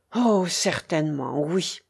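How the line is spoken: Enthusiastic loving murmur. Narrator (French): murmura-t-il avec l'enthousiasme de l'amour

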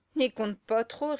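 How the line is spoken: Sneering snicker. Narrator (French): ricana le Baudet

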